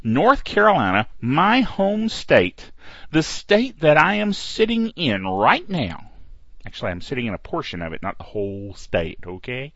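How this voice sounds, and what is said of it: Mild Piedmont North Carolina accent. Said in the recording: “I'm sure there are some of you who can hear the accent and know that I am a Piedmont North Carolinian ... My accent gets much worse if I'm not doing a podcast, because when I do a podcast, I tend to slip into the official FM DJ voice a little bit, just a hint”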